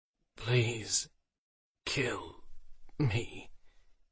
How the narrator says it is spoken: he rasped

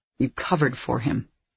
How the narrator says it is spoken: I said coldly

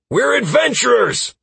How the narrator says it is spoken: shouted over the chaos

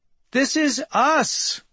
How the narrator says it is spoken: yells Kramer, having some kind of revelation

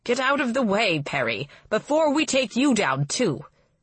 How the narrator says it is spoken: Counselor Ashlau snaps

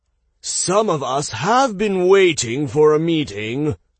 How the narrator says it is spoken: a voice called out

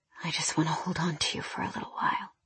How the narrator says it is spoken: I felt his breath against the top of my head, his lips in my hair as he murmured

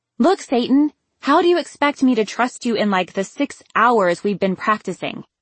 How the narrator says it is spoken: I snapped before I could stop

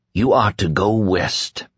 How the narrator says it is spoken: Mother Abigail whispered

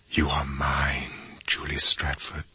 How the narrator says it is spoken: he whispered

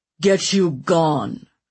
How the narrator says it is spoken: he snarled at Dunsworth

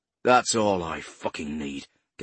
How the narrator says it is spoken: Gamble growled

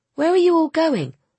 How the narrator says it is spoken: asked Sarinda

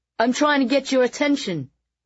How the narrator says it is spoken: Carlton shouted back

